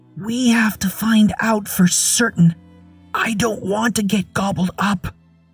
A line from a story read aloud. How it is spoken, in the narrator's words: Ellen whispered